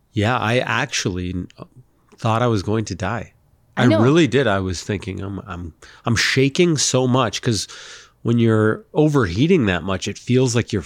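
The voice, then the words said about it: Sick, unwell-sounding voice. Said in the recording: “as you can probably tell from my voice... I'm a little ill right now.”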